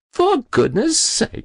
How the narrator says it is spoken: she laughed

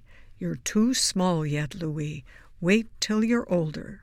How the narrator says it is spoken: more gently

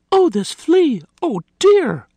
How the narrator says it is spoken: Martha had cried

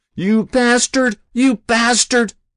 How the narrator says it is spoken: Ozzie screamed

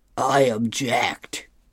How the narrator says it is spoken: Hagar yells out

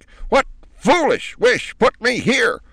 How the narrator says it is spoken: she demanded at the top of her voice

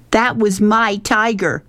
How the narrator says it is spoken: Rob screamed

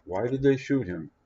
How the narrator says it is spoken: the neighbor said

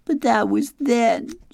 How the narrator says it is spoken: she sobbed

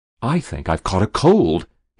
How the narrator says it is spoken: ventured desperately

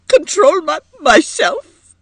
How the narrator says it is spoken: exclaimed Edith brokenly

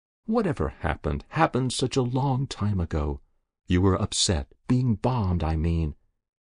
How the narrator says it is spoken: said Jessup gently

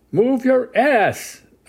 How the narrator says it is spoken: a man screaming

